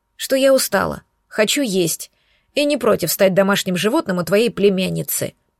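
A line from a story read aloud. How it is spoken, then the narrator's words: Grumble. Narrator (Russian): буркнула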